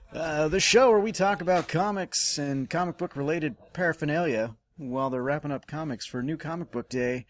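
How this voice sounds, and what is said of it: Game show announcer voice. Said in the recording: “slipping into game show announcer voice”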